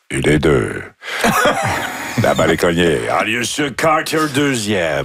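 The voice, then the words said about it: Imitates a baseball announcer's voice. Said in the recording (French): “c'était une voix connue, je me suis dit, vous avez déjà dû l'imiter à plusieurs reprises ... c'était une belle voix ... C'était facile de savoir qu'on était au baseball parce qu'on entendait.”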